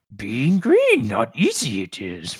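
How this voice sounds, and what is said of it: Yoda impression. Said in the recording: “I've never done a Yoda voice before ... That wasn't bad.”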